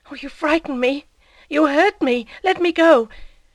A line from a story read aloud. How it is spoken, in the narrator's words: stammered